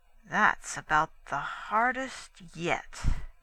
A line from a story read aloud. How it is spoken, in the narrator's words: he answered slowly